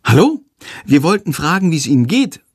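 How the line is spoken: Called out politely. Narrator (German): ruft Lilli höflich

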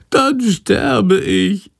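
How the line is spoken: Whining. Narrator (German): jammert Shandor

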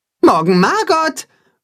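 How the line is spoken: Calling after. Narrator (German): ruft Timme ihr nach

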